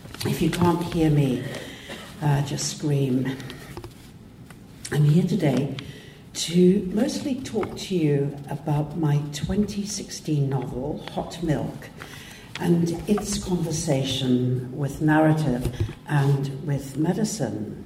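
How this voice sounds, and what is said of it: Slightly hoarse voice. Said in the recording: “my voice is a bit hoarse.”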